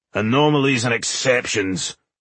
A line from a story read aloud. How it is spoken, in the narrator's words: growled Boindil, who was obviously of the opinion that certain tasks were the preserve of male dwarves